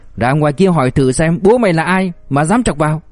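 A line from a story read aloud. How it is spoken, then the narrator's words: Furious shout. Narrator (Vietnamese): Gã đầu đinh giận dữ quát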